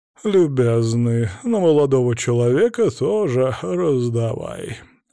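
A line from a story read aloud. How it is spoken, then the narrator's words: Lazy command. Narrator (Russian): лениво приказал граф Михайлов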